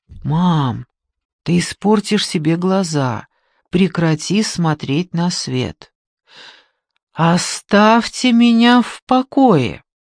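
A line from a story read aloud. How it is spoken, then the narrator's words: Quiet, from a distance. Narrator (Russian): тихо сказал издали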